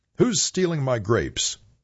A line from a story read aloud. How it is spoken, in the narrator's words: Howell called out